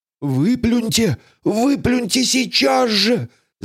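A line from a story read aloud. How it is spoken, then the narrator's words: Whispered shriek. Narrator (Russian): завопил полицейский шепотом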